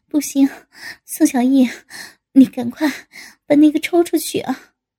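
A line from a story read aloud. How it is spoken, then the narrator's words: Breathless panting. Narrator (Chinese): 江小平一边被宋小艺顶得一耸一耸的，一边气喘吁吁的道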